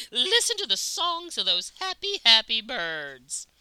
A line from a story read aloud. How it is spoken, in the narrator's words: she cried skyward